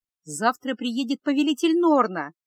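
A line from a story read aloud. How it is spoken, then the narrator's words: Joyful young woman. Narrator (Russian): радостно ответила молодая жрица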